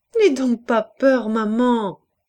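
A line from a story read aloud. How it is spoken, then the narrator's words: Laughing little girl exclaiming. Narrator (French): s'écria la petite qui riait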